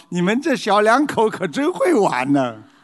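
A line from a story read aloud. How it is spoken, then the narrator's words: Laughing heartily. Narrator (Chinese): 司机大笑的对着妹子说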